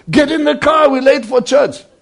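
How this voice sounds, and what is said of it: Acted shouting. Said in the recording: “you're shouting at the children”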